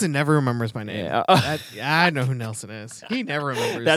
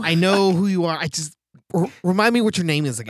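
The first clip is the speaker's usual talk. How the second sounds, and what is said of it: Imitates another person's voice. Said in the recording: “a good Nelson impression.”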